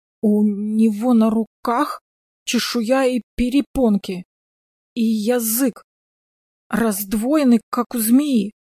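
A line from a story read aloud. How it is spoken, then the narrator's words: Stammering. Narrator (Russian): заикаясь, объяснил таксист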